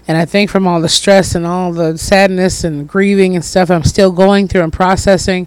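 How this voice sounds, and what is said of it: Scratchy, hoarse voice. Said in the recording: “my voice is a little scratchy, a little hoarse. ... I'm still trying to come up off of this cold, almost week 3.”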